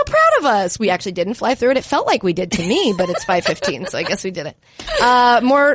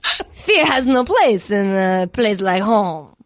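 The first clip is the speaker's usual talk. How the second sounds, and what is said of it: Exaggerated French accent. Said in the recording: “It's just a bad French accent, right? With a lot of like, mwah, mwah, mwah, mwah. ... You kind of nailed it.”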